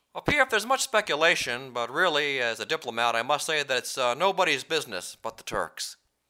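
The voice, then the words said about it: Imitates another person's voice. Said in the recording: “Vice President Biden... my hideous impression”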